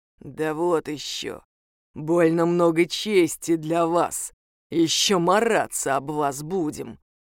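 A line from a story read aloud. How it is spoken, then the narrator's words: Creaky monster voice. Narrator (Russian): проскрипело чудовище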